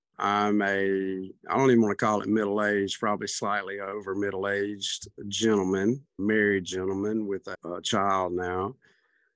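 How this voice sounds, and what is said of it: Southern American accent. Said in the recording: “I'm from the South. I wasn't raised in Brooklyn. You can tell by my accent.”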